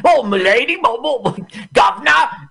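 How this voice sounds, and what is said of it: Put-on old-fashioned Cockney accent. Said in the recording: “He sounds like it's like the 1860s and he's in a horse carriage ... it's so Cockney”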